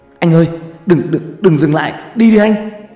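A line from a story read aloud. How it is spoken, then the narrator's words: Hissing. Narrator (Vietnamese): Toàn rít lên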